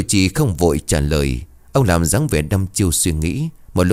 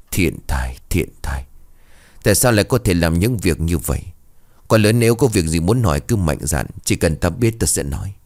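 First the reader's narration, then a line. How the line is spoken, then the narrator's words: Soft sigh. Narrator (Vietnamese): Sư chủ trì khẽ thở dài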